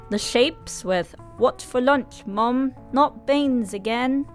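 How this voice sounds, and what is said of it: Put-on British accent. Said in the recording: “Excuse my British accent.”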